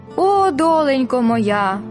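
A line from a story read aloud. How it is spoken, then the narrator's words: Heavy sigh. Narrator (Ukrainian): важко зітхнула Уліта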